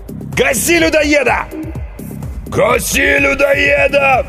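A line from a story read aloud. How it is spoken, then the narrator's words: Crowd roaring. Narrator (Russian): взревела толпа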